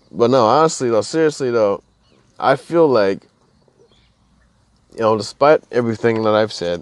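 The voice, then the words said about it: Tired, slurred speech. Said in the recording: “I'm fucking tired ... I feel like I'm slurring my words. Like my speech is like,”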